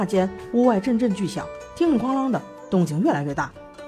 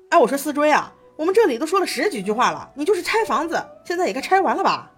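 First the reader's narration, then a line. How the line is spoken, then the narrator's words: Replying from outside. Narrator (Chinese): 蓝思追在外面回道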